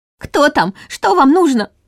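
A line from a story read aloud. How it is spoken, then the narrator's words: Frightened near-shriek. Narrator (Russian): Чуть ли не взвизгнула Нина, поддаваясь иррациональному страху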